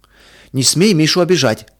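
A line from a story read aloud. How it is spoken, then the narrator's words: Protective shout. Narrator (Russian): крикнул Петя, готовый встать на защиту брата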